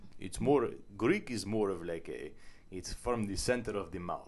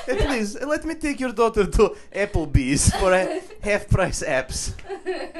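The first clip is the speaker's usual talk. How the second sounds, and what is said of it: Put-on Eastern European-sounding accent. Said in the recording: “I don't think that's a Greek accent. ... that was not a Greek accent. ... That was more Eastern European.”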